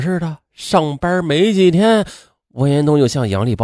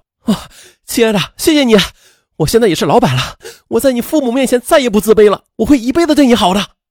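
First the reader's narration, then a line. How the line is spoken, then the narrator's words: Ecstatic shout. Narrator (Chinese): 王延东欣喜若狂，兴奋地喊道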